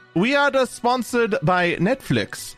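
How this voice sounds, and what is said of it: Terrible put-on accent. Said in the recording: “I apologize for that terrible accent.”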